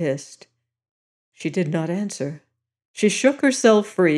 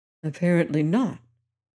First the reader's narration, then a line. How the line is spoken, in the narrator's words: Tom answered anxiously